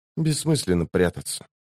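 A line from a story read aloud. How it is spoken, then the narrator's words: Whisper. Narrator (Russian): прошептала Лорн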